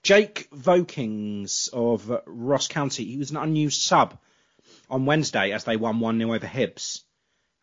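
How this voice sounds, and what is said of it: Congested, sniffly voice. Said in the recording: “I apologise if I'm sniffing a lot. I have a little bit of a cold”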